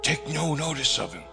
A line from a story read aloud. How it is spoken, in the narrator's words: I whispered